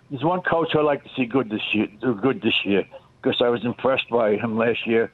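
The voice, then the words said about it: Noticeable regional accent. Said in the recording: “Do you have an accent? Sure, you got an accent.”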